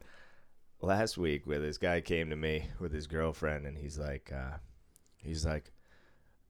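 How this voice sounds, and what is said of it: Usual voice. Nothing is said of it.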